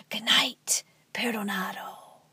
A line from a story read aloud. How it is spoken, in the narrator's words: the same old man with the broom shuffle past his cell and whisper